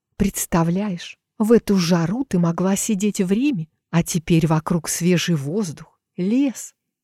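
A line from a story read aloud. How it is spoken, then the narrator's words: Dreamy sigh. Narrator (Russian): Мечтательно вздохнула Матильда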